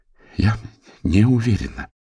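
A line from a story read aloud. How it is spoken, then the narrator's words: Strained. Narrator (Russian): сумела выдавить она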